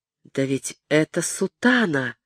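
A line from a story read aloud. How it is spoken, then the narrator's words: Silent inner thought. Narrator (Russian): решил он про себя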